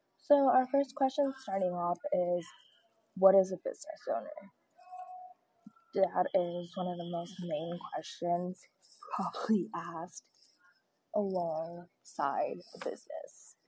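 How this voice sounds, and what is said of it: Voice affected by the cold. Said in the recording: “Sorry about my voice, it's getting cold here”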